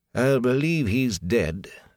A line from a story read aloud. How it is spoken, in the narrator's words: the innkeeper said slowly